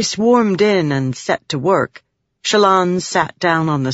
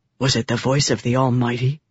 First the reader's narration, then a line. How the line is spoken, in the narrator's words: Vatha asked in a whisper